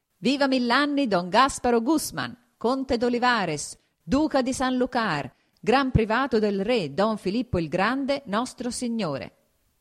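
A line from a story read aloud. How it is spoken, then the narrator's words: Exclaiming. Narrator (Italian): esclamò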